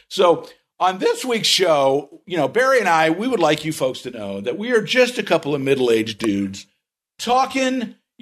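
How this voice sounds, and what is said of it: Overly excited DJ announcer voice. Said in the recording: “my professional DJ voice ... overly excited DJ voice”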